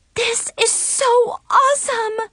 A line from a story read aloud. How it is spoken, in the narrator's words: Chloe exclaimed